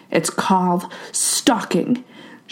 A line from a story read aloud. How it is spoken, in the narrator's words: felt like growling